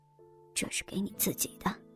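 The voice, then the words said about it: Quiet, hushed voice. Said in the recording (Chinese): “小声说道”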